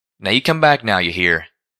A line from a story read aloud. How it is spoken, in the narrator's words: the green mare with the orange mane called out